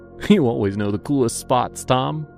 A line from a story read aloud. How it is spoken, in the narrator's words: the other member said, and they both giggled